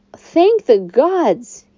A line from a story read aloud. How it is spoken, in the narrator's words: he yelped